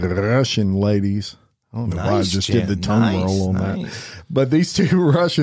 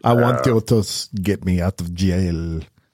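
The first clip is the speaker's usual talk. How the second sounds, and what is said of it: Put-on Russian accent. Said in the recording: “She was probably speaking in that accent... That's not bad”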